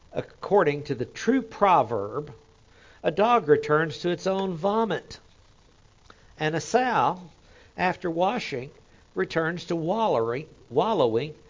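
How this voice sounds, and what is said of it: Oklahoma accent. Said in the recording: “I'm from Oklahoma. Wallowing. Kind of like Washington instead of Washington. I mean, that just kind of goes with the Oklahoma accent.”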